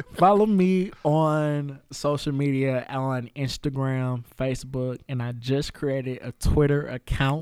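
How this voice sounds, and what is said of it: Radio announcer voice. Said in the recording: “You know I got to turn that radio voice on.”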